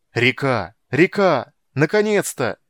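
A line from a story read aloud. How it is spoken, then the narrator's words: Crowd shouting. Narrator (Russian): Кричали все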